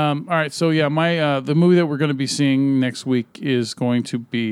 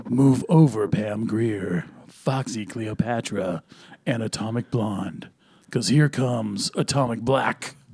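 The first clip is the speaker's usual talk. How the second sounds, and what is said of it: Deep bass movie trailer voice. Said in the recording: “Deep bass trailer voice”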